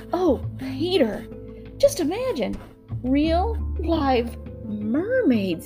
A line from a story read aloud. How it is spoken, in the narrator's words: exclaimed Wendy